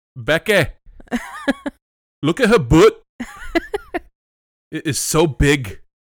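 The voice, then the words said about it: Good put-on Scottish accent. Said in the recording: “You have a very good Scottish accent.”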